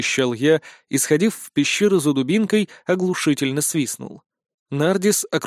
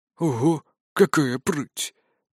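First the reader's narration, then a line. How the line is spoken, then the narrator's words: Quiet whistling ghostly voice. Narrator (Russian): Тихо присвистнул призрак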